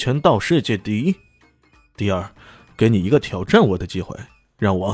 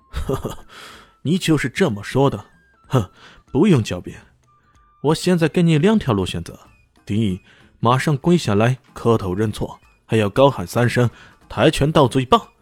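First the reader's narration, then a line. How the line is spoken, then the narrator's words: Cold sneer. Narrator (Chinese): 他冷笑着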